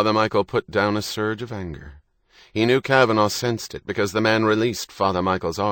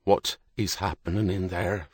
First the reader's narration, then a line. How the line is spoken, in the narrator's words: Father Michael asked, keeping his voice under careful control